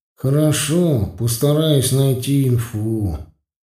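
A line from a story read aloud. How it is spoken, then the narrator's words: Dejected, sinking voice. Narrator (Russian): упавшим голосом сказал Петька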